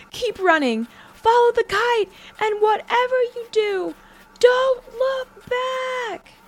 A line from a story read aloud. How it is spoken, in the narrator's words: Caleb screamed in fear